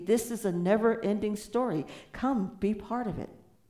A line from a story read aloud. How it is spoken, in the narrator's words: cries out